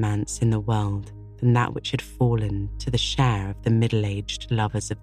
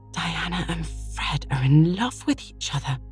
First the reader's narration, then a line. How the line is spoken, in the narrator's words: she gasped